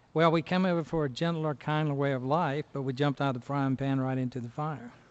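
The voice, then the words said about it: North Carolina accent. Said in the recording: “North Carolina ... I can't tell from that accent”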